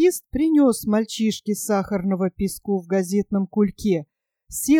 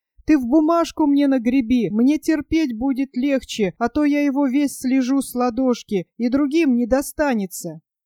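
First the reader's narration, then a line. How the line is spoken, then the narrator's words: Boy calling out. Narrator (Russian): мальчишка крикнул ему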